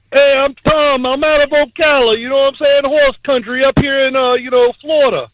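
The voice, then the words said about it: Florida accent. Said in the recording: “Interesting Florida accent.”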